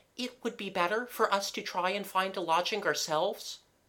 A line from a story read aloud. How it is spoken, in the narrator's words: said the flower-hatted lady nervously